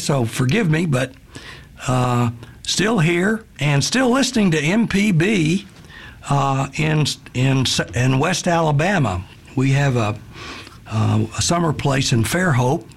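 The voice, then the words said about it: Slightly hoarse voice. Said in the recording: “I'm a little hoarse today from my Mississippi allergies”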